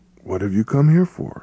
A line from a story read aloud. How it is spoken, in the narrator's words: he asked in a warm and friendly voice